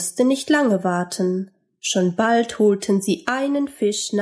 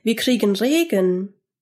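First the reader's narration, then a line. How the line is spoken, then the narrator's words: Called. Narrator (German): rief Georg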